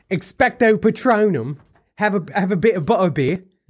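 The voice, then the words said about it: Weak put-on British accent. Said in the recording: “that's one accent I don't do very well. ... the British accent. English, whatever you want to call it.”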